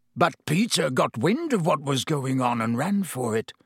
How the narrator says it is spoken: croaked Black

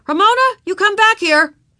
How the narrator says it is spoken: yelled Henry

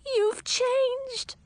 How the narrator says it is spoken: squeaked

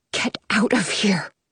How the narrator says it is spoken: she whispers

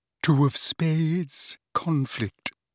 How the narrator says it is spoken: she murmured

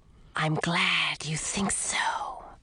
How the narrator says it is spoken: breathed a voice that sent a chill up my spine

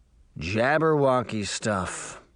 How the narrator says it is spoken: the younger man said gravely

